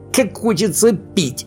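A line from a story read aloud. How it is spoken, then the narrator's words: Whining. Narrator (Russian): хныкал Сниф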